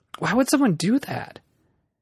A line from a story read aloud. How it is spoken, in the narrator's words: Jack sighed